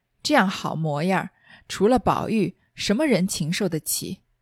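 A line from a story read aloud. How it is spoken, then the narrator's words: Muttering old woman. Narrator (Chinese): 那老婆子还只管嘴里咕咕哝哝的说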